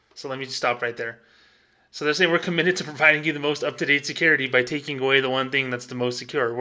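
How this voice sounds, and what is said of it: Usual voice. Nothing is said of it.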